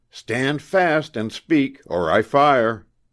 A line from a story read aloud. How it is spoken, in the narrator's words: shouted sternly